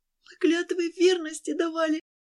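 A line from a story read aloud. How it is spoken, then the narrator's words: Desperate pleading. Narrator (Russian): Взмолилась отчаянно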